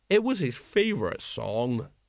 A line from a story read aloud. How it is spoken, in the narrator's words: said sadly